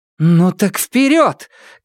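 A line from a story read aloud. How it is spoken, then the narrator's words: Shouted. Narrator (Russian): крикнула Нелит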